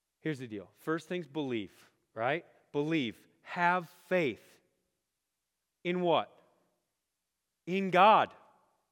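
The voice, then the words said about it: Loud, raised excited voice. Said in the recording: “Or am I yelling? I'm raising my voice. I'm excited.”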